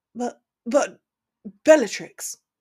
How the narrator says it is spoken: stammered Lucius

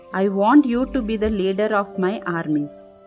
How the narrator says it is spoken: replied Duryodhana

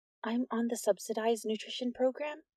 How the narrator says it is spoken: Nix got as close as possible and mumbled

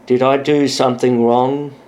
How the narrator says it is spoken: He asked in a sleepy voice

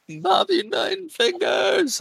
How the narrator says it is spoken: I scream

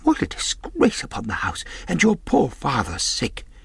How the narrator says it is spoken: cried my mother

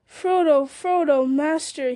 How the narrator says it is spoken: he cried, half sobbing

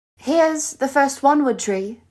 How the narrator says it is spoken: Luna called out

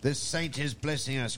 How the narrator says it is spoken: cried the old woman

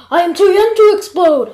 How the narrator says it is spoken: I yelled

